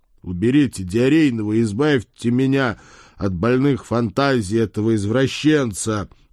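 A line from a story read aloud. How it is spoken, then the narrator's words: Loud request. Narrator (Russian): громко попросил я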